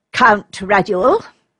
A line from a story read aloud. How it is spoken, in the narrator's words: said Vladimir in a haughty tone